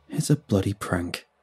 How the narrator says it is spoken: Bram sneered

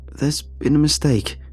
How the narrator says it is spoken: sputtered

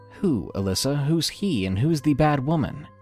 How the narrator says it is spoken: I asked

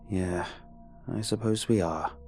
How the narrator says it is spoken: sigh

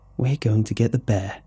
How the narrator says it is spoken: Amy said

